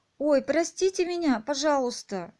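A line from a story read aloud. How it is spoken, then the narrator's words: Exclaimed. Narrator (Russian): воскликнула Алиса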